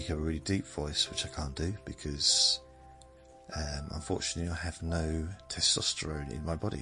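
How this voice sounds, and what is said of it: Usual voice. Nothing is said of it.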